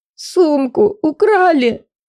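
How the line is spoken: Hiccuping, sobbing. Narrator (Russian): Позорно икнула и снова зарыдала

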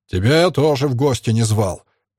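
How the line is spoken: Centurion's bark. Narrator (Russian): рявкнул сотник

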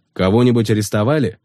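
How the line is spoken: Plain. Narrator (Russian): спросил он

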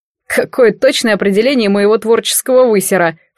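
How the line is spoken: Drunken snort. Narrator (Russian): фыркнул художник, и я поняла, что он безобразно пьян

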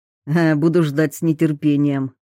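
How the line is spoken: Snorted. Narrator (Russian): хмыкнул Рачинский

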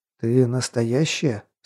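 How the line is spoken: Strained whisper. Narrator (Russian): с трудом прошептал я

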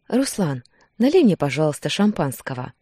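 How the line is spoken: Affectionate request. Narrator (Russian): попросила ласково

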